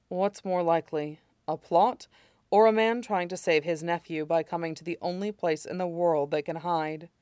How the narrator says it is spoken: Ting Cha sighed

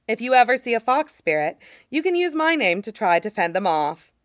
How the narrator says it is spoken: Nia Huaisong said cheerfully

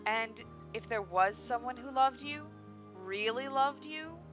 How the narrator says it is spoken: Shusuran asked, her voice strained slightly with the struggle of keeping her emotions buried

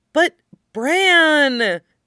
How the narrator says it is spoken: she whines, sounding like Nymeria

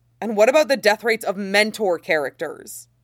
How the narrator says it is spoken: Shen Yuan snaps back

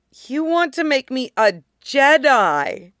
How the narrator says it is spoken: Tup says, choked

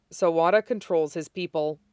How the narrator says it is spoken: Hibari said

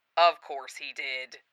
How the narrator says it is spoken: Hood mutters

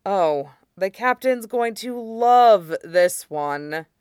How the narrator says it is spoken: he groaned

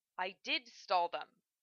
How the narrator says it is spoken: Sophie snapped

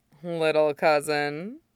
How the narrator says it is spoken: she drawls

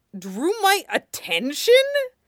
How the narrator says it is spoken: Zuko sputtered

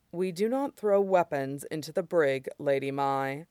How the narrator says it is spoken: Moriaki said dryly

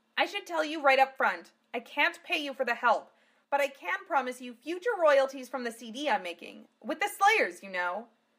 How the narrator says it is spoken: Martina shouted with maniacal certainty

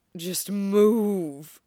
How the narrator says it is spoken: groans

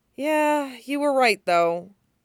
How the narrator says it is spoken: sighs

